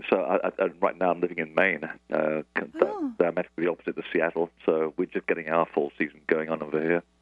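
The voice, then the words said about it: Transatlantic bi-regional accent. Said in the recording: “this ridiculous accent, which is sort of transatlantic ... Your lovely coastal bi-regional accent”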